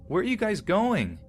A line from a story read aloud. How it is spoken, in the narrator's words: Very puzzled, I stood up and shouted